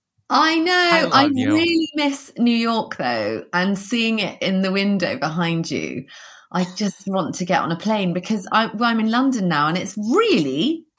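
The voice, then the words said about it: Smooth British accent. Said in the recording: “the British accent, I have to say, smooth as butter”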